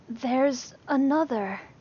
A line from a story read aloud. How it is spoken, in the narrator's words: Lee breathed, wide-eyed